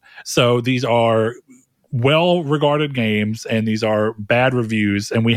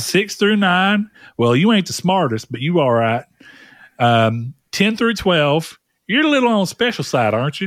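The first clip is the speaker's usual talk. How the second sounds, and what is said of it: Put-on Southern US accent. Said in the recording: “A good old Southern accent should be used here.”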